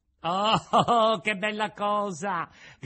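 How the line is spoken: Joyful shout. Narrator (Italian): gridò Pinocchio, saltando dall'allegrezza

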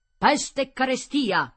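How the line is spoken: Angry shout, fist banging. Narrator (Italian): gridò menando un pugno sul tavolo

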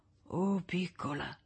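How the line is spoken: Whisper through cracked lips. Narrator (Italian): sussurrò tra le labbra gonfie e screpolate

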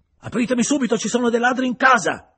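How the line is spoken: Yelling. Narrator (Italian): urlava

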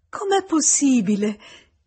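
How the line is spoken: Exclaimed. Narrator (Italian): esclamò Emma

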